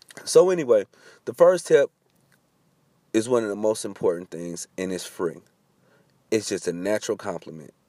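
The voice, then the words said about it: Voice sounding sick, under the weather. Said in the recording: “I'm a little under the weather. I know you can hear it in my voice”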